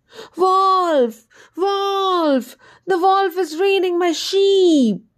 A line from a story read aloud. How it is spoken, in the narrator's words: the shepherd let out a hue and cry and shouted at the top of his voice